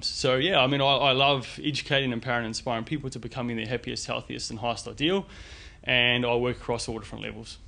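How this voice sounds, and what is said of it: New Zealand accent. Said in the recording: “you were born in New Zealand, for those people who might not have actually picked up the accent.”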